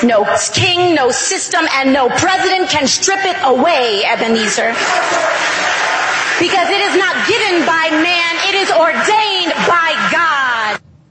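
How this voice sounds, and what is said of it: Preacher-style oratorical delivery. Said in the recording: “she gets into that preacher voice. ... It's just bad acting.”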